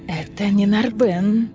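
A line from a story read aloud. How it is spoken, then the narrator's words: Hissing. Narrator (Russian): прошипел Лантис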